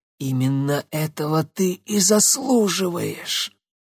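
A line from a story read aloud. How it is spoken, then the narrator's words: Hoarse young woman. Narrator (Russian): прохрипела девушка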